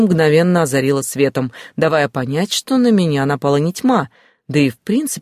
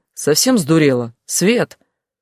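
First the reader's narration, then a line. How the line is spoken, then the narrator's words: Indignant declaration. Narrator (Russian): возмущенно заявила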